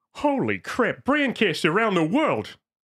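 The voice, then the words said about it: Peter Griffin cartoon voice impression. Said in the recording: “Peter Griffin”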